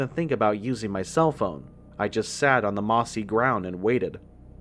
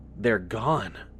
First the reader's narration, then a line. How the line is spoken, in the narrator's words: Ross explained in a choked voice